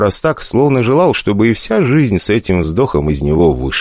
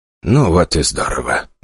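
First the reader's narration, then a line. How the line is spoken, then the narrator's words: Speaking with a sigh. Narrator (Russian): проговорил Альберт Эдгарович и вздохнул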